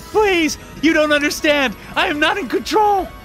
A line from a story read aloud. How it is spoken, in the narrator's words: screamed